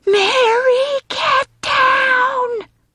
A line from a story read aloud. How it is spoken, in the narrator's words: Screaming so loud, his vocal cords may rupture